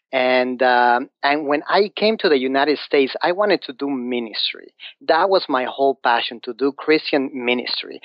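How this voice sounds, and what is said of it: Mexican Spanish-accented English. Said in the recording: “you probably noticed that I have an accent ... I'm from Mexico, from Mexico City”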